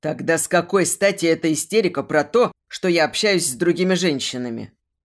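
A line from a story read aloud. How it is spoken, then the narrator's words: Bark. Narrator (Russian): Рявкнул Вадим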